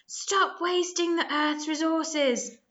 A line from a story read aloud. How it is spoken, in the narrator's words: yelled